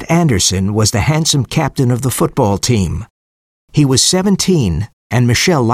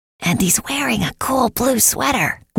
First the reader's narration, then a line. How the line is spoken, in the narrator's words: whispered Juanita